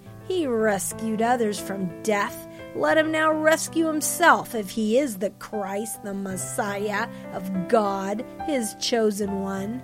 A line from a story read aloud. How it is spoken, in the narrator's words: the rulers scoffed and sneered, saying